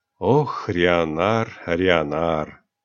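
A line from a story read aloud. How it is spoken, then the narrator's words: Heavy sigh. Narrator (Russian): Исса Дархарс тяжело вздохнула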